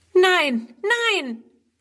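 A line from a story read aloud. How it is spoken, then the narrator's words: Horrified cry. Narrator (German): ruft Friedrun entsetzt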